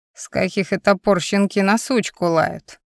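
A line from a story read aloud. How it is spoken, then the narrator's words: Old woman cackling. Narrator (Russian): хохотнула старуха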